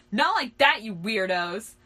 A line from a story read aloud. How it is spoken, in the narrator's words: he screeched